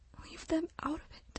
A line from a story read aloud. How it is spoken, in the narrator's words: she whispered to herself